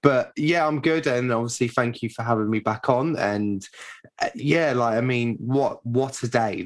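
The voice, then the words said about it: Hoarse, worn-out voice. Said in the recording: “You can probably tell by my voice how good I am. So my voice is absolutely shattered with 90 minutes of chanting”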